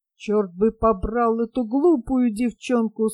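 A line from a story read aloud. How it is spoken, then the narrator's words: Muttered through clenched teeth. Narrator (Russian): сквозь зубы пробормотал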